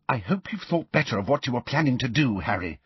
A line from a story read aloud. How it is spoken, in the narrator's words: whispered